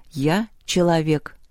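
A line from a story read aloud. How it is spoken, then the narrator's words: Calm. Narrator (Russian): спокойно сказала Люба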